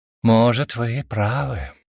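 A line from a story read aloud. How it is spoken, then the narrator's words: Sighing. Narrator (Russian): вздохнул я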